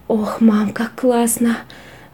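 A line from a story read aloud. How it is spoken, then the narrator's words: Sighing. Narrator (Russian): вздохнул он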